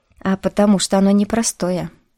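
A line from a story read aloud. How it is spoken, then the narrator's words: Plain. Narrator (Russian): сказал Бер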